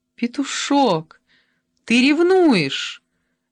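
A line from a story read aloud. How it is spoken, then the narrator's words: Exclaimed. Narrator (Russian): воскликнула Ольга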